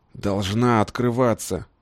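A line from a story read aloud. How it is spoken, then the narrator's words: Angry hoarse wheezing. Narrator (Russian): Налившись кровью, хрипел лесогрузов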